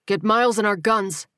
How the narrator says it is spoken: Terrell barked

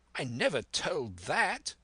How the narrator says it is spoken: cried the squire

